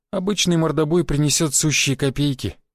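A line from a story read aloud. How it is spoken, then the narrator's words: Sad, smiling tone. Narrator (Russian): печально улыбнулась она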